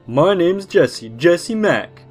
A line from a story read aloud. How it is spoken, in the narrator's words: at the top of his lungs in his obnoxious fake Boston accent